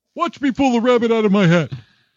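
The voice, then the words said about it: Bullwinkle cartoon character voice. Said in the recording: “my impression ... the Rocking Bullwinkle”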